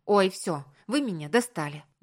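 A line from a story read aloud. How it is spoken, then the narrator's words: Exasperated outburst. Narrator (Russian): Не выдержав, психанула я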